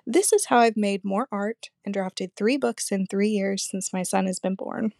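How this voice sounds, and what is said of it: Scratchy voice. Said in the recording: “my voice is kind of scratchy today. Must be allergies.”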